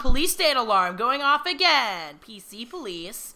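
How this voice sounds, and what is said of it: Imitates another person's voice. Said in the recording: “my impression of Jerry Seinfeld”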